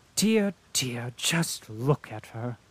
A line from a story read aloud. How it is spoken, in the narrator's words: exclaimed the Countess